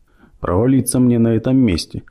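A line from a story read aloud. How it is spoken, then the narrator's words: Gloomy musing. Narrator (Russian): мрачно рассуждал полковник Мелроуз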